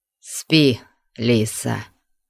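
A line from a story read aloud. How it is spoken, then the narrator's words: Hoarse conflicted voice. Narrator (Russian): сказал он голосом хриплым от противоречивых чувств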